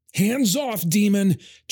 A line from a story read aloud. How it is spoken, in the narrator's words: Traz shouted, his voice cracking